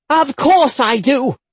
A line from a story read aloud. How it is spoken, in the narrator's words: she bellowed